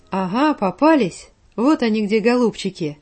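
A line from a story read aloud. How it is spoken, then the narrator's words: Thunderous, frightening voice. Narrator (Russian): прогремел страшным голосом лесной бродяга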